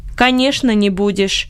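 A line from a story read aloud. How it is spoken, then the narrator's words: Dry interjection. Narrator (Russian): сухо вставил Бенет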